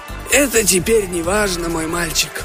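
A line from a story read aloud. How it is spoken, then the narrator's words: Hoarse chief. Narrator (Russian): прохрипел вождь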